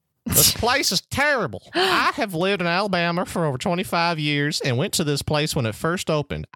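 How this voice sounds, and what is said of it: Put-on American country accent. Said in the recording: “I'm going to read this one with a country accent because it takes place in Alabama.”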